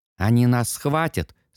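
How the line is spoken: Calm child's question. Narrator (Russian): спокойно спросил мальчуган

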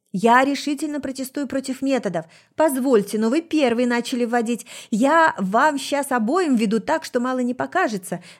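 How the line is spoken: Angry yelling. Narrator (Russian): заорал кто-то третий

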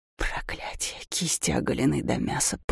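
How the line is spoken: Hissing in pain. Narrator (Russian): Даур с шипением

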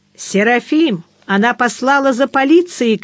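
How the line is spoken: Shouting. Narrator (Russian): крикнул

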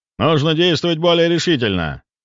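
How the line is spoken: Deep confident voice. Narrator (Russian): глубоким, уверенным голосом произнес военный министр

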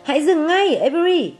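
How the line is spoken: Cried out. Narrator (Vietnamese): Fern kêu lên

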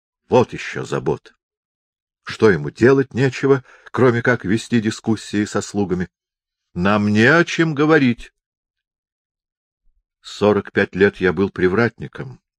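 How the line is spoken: Indignant agitated cook. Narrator (Russian): возмущенно задергался кухмистер

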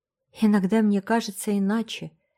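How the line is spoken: Sad smiling tone. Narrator (Russian): печально улыбнулась Энн

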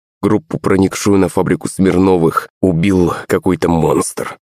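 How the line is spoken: Plain. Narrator (Russian): ответил помощник

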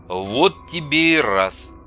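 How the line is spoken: Surprised mutter. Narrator (Russian): удивленно пробормотал Андрей

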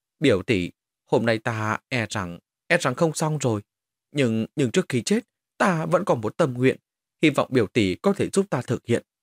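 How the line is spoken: Weak mumble, coughing blood. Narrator (Vietnamese): Lý Giật lại ho ra vài ngụm máu, lẩm bẩm nói

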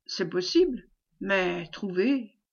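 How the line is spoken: Murmur together. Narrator (French): murmurèrent-ils

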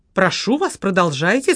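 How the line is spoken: Demanding tone. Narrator (Russian): сказала Ирина требовательным тоном

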